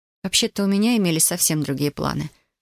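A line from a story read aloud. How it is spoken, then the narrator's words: Sighing. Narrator (Russian): вздохнула я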